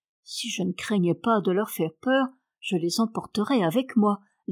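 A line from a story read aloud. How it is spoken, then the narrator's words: Plain. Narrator (French): dit Marie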